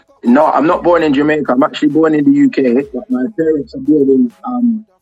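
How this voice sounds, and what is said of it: UK accent with Jamaican twang. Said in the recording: “I've been going there from as a youth. I've got this twang to my accent, so people get it confused ... We're loving the accent”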